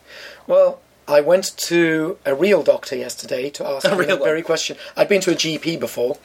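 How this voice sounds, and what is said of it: Wonky, strained unwell voice. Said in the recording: “my voice is still quite wonky”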